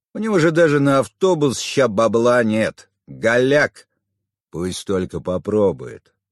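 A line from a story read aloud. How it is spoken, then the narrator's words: Threatening snort. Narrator (Russian): Угрожающе хмыкнул второй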